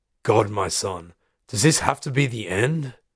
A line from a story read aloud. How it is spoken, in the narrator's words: He sighs